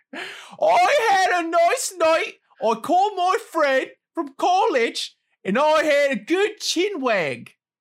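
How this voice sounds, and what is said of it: Put-on British accent. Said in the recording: “I will read it in a British accent. ... Yeah, it was pretty good.”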